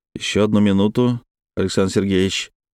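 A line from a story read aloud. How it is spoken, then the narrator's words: Very even voice. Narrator (Russian): очень ровным голосом проговорил я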